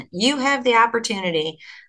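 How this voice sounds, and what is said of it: Put-on Southern US accent. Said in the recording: “as a Southern accent.”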